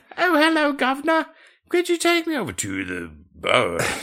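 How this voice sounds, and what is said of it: Put-on Cockney accent. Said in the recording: “he was speaking in a Cockney accent”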